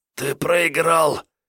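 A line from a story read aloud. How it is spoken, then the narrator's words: Hoarse rasp. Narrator (Russian): прохрипел землянин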